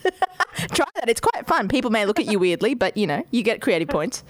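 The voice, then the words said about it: Speaks with a noticeable accent. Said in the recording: “I could listen to the accent all day”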